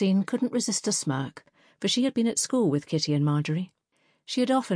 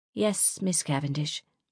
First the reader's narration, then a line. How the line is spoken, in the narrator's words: muttered Kitty